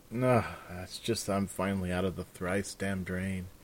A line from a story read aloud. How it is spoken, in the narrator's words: Raven said, sighing